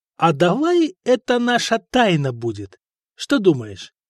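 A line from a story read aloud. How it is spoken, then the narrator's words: Plain. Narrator (Russian): спросил Вышата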